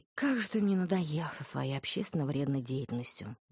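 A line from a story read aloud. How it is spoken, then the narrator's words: Resigned sigh. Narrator (Russian): вздохнула я, обреченно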